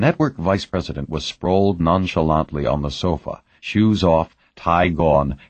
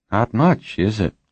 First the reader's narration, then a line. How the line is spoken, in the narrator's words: he said lazily